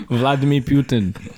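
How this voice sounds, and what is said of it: Put-on Russian-style accent. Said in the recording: “What was that accent? ... I'm not Russian.”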